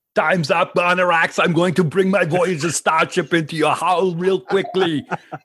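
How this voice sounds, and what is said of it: Imitates another person's voice. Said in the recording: “that was a great impersonation”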